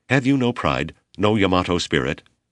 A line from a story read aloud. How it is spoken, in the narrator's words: younger men asked